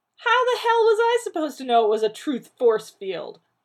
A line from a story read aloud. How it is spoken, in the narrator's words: John barked